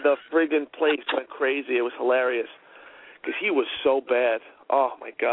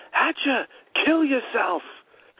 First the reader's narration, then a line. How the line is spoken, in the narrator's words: He screams